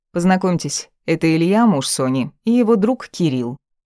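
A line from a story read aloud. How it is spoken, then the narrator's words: Icy cold. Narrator (Russian): произнесла Ника максимально холодно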